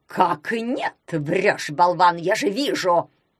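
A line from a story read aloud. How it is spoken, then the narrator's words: Roar. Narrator (Russian): взревел Малюта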